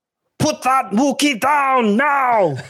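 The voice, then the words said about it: Arnold Schwarzenegger impression. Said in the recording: “your Arnold Schwarzenegger impersonation? ... these are Arnold Schwarzenegger themed ... just trying to be Arnold Schwarzenegger ... That's pretty good.”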